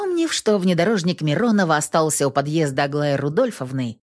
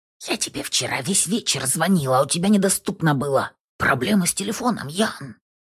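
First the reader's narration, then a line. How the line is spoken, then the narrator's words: Whisper. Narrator (Russian): шепот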